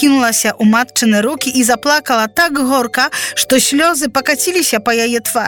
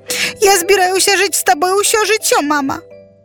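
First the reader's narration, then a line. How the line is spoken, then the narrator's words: Sobbing. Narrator (Belarusian): усхліпвала яна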